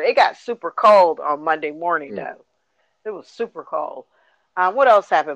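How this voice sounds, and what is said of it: Hoarse, worn-out voice. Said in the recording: “I'm super tired... I probably lost my voice.”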